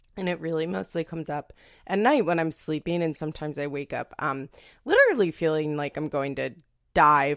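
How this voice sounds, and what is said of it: Slightly scratchy voice. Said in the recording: “my voice is a little scratchy because I'm having some acid reflux”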